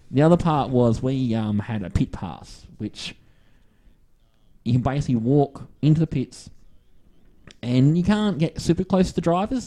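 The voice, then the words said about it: Australian accent. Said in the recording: “the Aussie accent. ... oh, you're from Australia”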